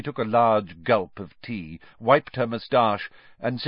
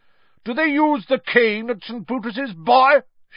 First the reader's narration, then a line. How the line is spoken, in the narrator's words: barked across the table